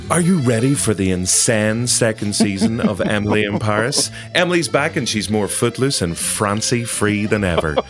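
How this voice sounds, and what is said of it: Dramatic movie-trailer voiceover voice. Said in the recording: “put on my voiceover man voice”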